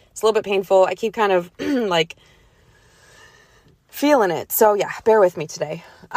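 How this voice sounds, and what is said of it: Voice affected by sore throat. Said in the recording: “I have a little bit of a sore throat / cold coming on. So my voice is kind of different today”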